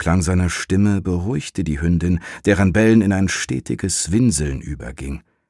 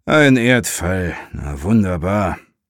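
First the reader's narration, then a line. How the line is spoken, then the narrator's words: Half-voiced male murmur. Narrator (German): murmelte er halblaut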